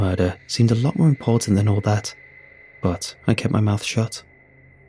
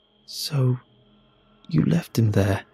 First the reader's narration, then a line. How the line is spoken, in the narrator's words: I murmured